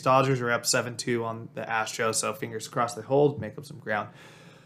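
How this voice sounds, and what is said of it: Hoarse, strained voice. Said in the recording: “my voice is a little shot because I was booing a lot. And it may have been chanting some things.”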